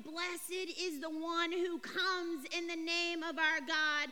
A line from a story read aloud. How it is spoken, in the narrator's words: They shouted